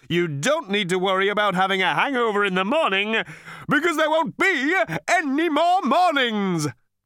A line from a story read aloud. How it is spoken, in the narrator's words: he cried cheerily